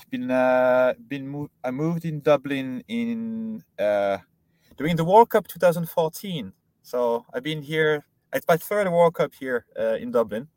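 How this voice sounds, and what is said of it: French accent in English. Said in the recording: “sounds French ... a Frenchman living in Dublin ... I didn't manage to lose the French accent”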